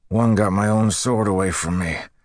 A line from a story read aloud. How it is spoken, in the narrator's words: Dalarn said with a grunt